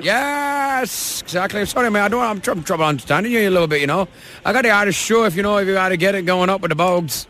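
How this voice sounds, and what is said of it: Bad put-on Irish accent. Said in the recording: “How bad was that Irish accent? ... I actually thought it was pretty good, no? ... It's awful.”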